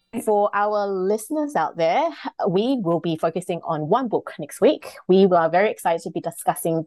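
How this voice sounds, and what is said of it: Usual voice. Nothing is said of it.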